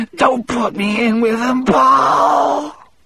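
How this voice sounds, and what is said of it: Hoarse, wet whisper. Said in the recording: “he whispered in a hoarse, wet voice.”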